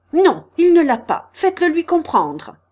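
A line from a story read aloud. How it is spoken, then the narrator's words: Shouting. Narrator (French): cria Gaganov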